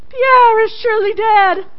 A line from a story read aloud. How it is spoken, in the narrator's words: They ... cried